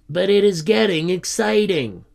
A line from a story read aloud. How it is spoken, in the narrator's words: grumbled Tony